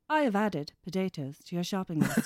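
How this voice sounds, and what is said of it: Imitates a voice assistant. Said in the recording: “that was actually a really good Alexa impression.”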